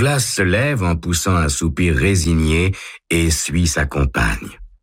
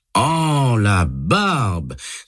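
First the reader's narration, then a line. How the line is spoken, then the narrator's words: Exclaiming. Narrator (French): s'exclame Douglas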